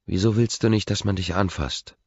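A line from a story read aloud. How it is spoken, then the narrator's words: Gentle question. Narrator (German): fragt mit sanfter Stimme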